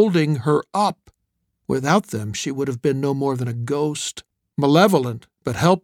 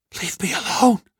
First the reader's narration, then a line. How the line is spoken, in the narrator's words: I whispered